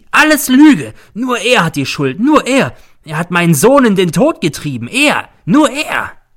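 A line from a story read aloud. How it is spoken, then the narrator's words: Shrieking. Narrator (German): kreischt sie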